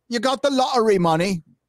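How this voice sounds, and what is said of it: Deliberately bad English accent. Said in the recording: “that was really good. That was a really good crap English accent.”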